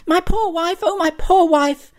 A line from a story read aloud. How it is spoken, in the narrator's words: he shouted